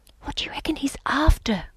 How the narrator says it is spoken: I whispered

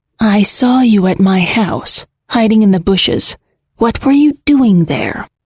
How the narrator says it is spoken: sighs, and the rise and fall of her chest does not shake off the weight which has settled there

